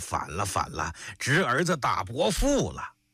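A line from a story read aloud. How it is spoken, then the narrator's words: Wild yelling from the ground. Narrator (Chinese): 他躺在地下乱嚷起来，说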